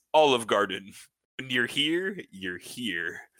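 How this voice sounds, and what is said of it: Announcer in a wet voice. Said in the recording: “Announcer in a wet voice.”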